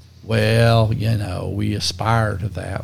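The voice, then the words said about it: Put-on country accent. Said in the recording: “I liked your country accent there.”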